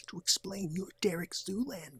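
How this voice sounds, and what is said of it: Soft, quiet imitation of another's voice. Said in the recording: “talks a bit softly like this ... That's a great specific Owen Wilson impression.”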